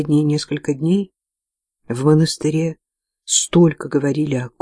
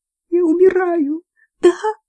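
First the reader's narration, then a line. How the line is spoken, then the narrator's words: Trembling small voice. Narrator (Russian): спросила она дрожащим голоском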